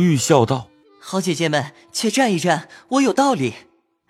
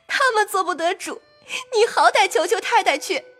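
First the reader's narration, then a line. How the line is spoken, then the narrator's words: Crying. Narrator (Chinese): 思琪……哭道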